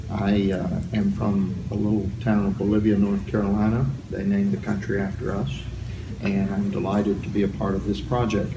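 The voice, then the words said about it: Southern US accent. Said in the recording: “You can tell from my accent I'm from the South.”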